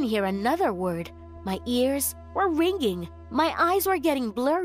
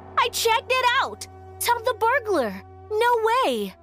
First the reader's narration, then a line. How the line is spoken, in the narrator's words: She was screaming